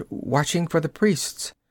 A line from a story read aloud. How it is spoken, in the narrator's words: she whimpered